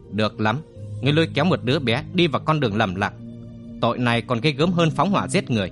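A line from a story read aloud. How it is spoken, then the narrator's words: Stern, clipped voice. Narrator (Vietnamese): gằn giọng nói với Cát Đằng Long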